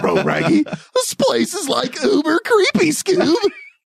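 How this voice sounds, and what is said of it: Cartoonish Scooby-Doo voice impression. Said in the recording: “all your impersonations are very cartoon-esque”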